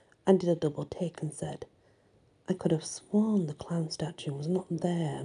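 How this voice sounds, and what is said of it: Usual voice. Nothing is said of it.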